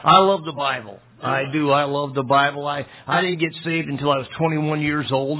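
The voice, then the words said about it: Slightly raspy voice. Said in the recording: “my voice is a little raspy because I was in Burma and Thailand preaching quite a bit and teaching and then traveling”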